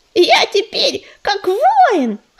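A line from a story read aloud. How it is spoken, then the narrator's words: Boastful squeak. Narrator (Russian): хвастливо запищал он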